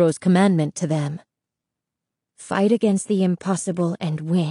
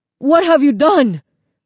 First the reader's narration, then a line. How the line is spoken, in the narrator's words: Señor Castillo cried